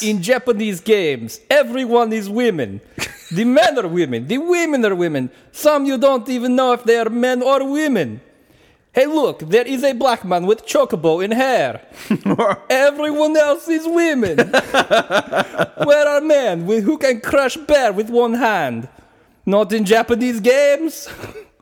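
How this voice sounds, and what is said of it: Put-on foreign accent, broken English. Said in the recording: “That was a solid accent.”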